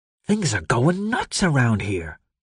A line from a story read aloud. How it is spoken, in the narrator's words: Frankie whispered